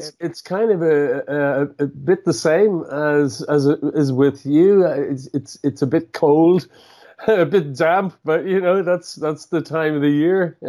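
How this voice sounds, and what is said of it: Irish accent. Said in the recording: “I love his Irish accent ... I love your Irish accent.”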